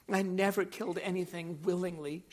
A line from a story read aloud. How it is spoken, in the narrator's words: she sobbed